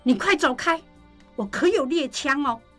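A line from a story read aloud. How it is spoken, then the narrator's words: Frightened shout. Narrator (Chinese): 季珍就跟受惊了一样，冲着门外大喊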